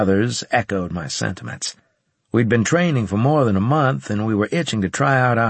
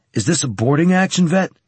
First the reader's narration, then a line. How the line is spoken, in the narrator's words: demanded Carlos excitedly